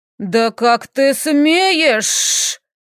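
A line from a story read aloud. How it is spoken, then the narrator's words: Hiss. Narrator (Russian): зашипел лорд Раун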